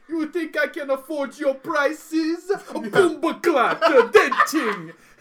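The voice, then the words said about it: Poor put-on Jamaican accent. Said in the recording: “I'm very bad at the Jamaican accent.”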